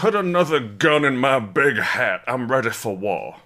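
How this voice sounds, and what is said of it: Exaggerated put-on American accent. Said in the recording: “This is what you all sound like to me. ... This is how we sound in America.”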